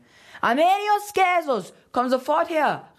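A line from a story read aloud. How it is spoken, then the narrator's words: Woman calling out. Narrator (German): rief eine Frau, wahrscheinlich seine Mutter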